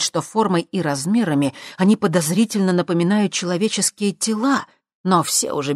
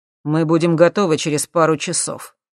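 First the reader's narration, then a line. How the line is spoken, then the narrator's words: Dry reply. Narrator (Russian): сухо ответил ему Юрий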